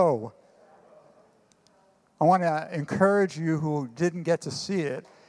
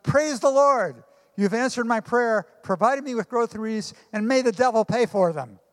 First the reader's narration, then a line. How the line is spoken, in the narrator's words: The little old lady shouted